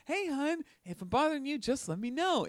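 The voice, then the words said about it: Cheery, upbeat sing-song voice. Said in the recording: “in my happy dentist voice”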